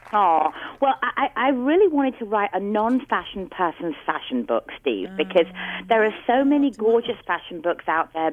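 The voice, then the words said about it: London English accent. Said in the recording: “What's the accent? ... I'm from London. Good old-fashioned London, England.”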